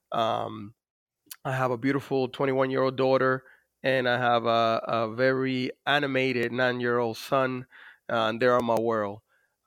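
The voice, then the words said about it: Dominican-accented English. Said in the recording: “As you could probably notice from my accent, I was born in the Dominican Republic”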